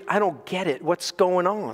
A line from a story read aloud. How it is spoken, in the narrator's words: The new pastor whispered